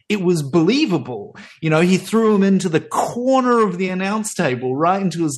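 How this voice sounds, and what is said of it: Usual voice. Nothing is said of it.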